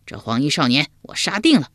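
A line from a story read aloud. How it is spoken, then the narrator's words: Loud. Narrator (Chinese): 秋亚高声说道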